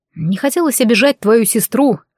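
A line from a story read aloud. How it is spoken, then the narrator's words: Amused snort. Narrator (Russian): хмыкнул Рейджин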